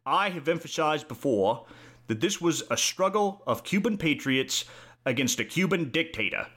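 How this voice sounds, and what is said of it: Imitates another person's voice. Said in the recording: “my Kennedy impersonation. It is not very good.”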